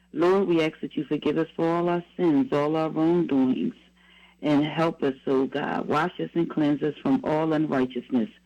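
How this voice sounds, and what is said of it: Slightly raspy voice. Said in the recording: “hear the difference in my voice. It's still a little raspy, but it's a lot better than last week”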